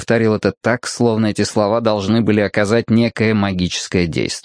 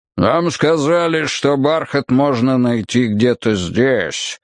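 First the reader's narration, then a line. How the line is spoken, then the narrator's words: Deep, indistinct male voice. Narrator (Russian): пробасил второй мужчина, и голос его также был невнятным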